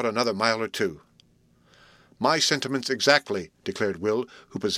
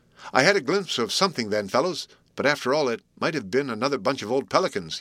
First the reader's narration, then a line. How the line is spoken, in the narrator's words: he exclaimed